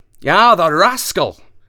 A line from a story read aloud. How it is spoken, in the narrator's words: he cried